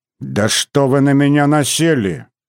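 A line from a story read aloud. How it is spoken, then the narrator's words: Irritated father. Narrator (Russian): раздраженно сказал отец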